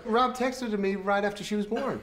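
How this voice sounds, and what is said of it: Unconvincing American accent. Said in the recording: “the American played by a British person with an unconvincing American accent”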